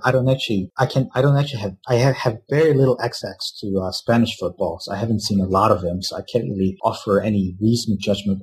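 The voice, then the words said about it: Noticeable regional accent. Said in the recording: “I think people can tell from my accent.”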